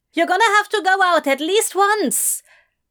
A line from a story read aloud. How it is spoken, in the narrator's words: Adam shouted from his room